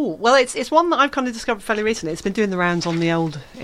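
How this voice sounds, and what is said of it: Usual voice. Nothing is said of it.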